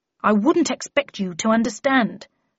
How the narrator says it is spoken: replied Tweed crossly

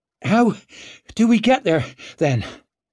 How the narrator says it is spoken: she asked between her wheezes

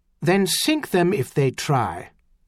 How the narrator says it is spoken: Gravier said coldly

